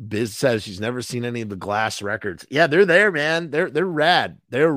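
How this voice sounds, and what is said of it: Usual voice. Nothing is said of it.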